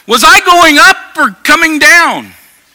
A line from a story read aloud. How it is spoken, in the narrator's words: shouted